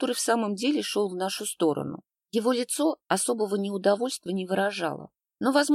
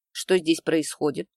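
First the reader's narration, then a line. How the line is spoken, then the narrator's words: Calm inquiry. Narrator (Russian): спокойно поинтересовался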